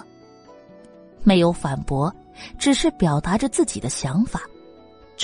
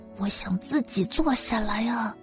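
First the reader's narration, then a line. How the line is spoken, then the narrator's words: Soft matter-of-fact. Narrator (Chinese): 云柯，轻声述说着一个事实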